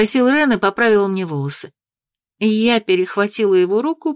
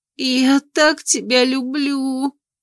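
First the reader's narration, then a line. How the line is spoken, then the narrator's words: Whimpering. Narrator (Russian): проскулила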